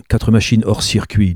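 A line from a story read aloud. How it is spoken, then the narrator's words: Plain. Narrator (French): dit Chic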